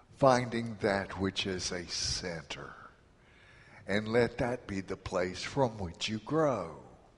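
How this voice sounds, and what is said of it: Accent, center sounds like sinner. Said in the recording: “With my accent, it sounds like S-I-N-N-E-R.”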